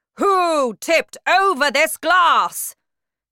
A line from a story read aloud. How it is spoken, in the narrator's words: the Trunchbull shouted